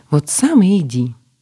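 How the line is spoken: Snapping, resentful. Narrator (Russian): огрызнула собеседница, не видя никакого сочувствия с его стороны

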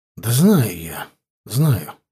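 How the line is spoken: Sigh. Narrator (Russian): вздохнул Тимофей

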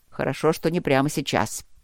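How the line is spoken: Grumbling mutter. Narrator (Russian): пробурчал Черныш

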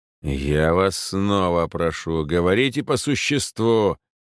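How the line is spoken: Growl. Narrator (Russian): прорычал помещик

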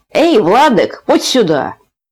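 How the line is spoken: Shouted. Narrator (Russian): крикнул

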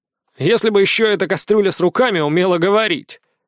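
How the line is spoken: Wry snort. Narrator (Russian): хмыкнул на мой вопрос Фома

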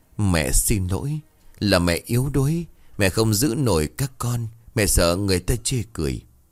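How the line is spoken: Trembling, muffled voice. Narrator (Vietnamese): Bà Phượng ngồi sụp xuống, ngay tay bưng mặt, giọng run rẩy

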